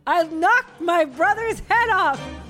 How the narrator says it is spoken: said between sobs

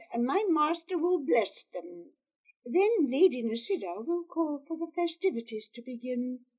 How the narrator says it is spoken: Zobi said

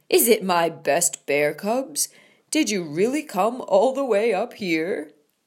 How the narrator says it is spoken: boomed

